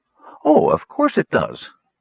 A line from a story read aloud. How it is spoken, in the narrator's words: Kitiara said with a chuckle